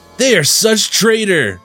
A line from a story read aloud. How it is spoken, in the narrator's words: Baxter yelled